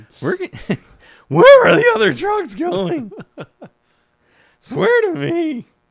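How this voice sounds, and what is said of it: Imitates Batman character voice. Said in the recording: “Batman.”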